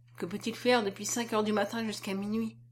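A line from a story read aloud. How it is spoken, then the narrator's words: Unconscious murmur. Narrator (French): murmura-t-il sans savoir qu'il parlait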